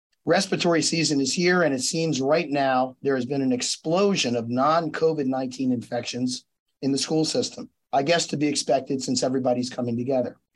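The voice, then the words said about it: Hoarse voice. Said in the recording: “You may notice my hoarse voice today. I'm getting over a non COVID 19 viral infection”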